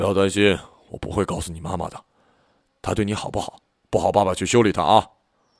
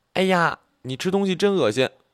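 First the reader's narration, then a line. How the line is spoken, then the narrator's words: Loud. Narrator (Chinese): 大声说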